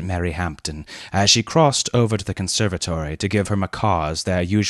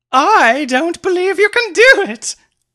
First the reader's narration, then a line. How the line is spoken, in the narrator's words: laughed Mary provocatively from the conservatory